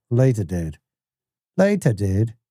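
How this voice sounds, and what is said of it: Put-on British English accent. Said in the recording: “the trick to the British accent is not to open your mouth ... That's maybe the best English accent I've ever done.”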